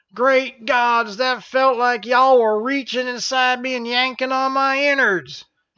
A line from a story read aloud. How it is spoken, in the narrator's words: General Jarmy shrieked